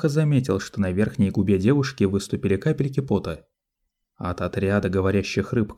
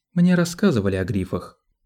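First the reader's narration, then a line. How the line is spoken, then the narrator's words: Cold rebuke. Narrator (Russian): холодно осадила его Сиона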